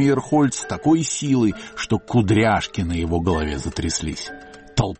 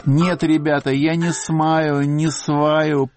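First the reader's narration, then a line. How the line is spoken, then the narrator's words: Tipsy moan. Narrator (Russian): пьяновато простонала Поля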